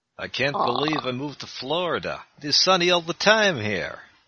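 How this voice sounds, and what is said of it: Put-on Transylvanian accent. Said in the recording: “I'm trying to do Transylvanian ... Doesn't sound Transylvanian so much as Yakov Smirnov”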